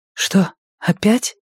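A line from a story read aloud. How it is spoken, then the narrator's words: Whispered. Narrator (Russian): прошептала она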